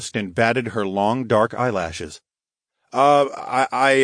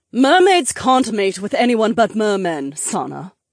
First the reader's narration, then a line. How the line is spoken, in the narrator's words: the Duchess spat out